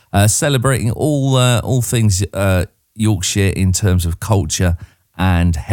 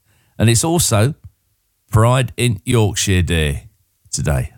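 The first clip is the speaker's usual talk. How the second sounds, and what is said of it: Attempted Yorkshire accent. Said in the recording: “That's me having a go at the accent.”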